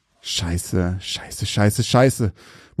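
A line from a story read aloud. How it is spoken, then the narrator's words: Panicked muttering. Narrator (German): murmelte Marcus panisch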